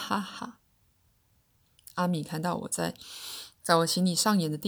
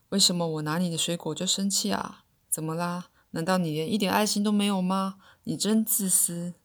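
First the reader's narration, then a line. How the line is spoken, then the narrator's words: Mocking. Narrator (Chinese): 他嘲笑我说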